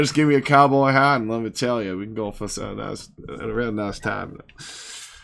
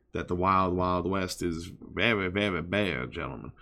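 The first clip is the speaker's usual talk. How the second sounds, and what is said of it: Put-on Southern US accent. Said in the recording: “Love that southern accent you got going on there.”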